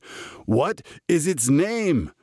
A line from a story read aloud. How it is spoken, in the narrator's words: Reb Stein roared